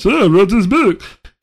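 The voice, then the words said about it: Put-on dumb-sounding voice. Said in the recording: “I should use my dumb voice.”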